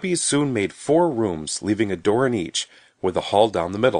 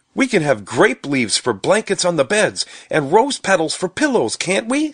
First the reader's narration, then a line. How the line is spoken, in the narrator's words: said Stubby excitedly